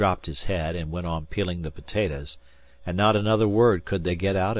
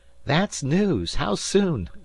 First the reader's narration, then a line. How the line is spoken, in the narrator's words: said Dan with a laugh